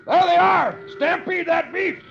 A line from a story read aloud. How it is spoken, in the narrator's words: One of the men shouts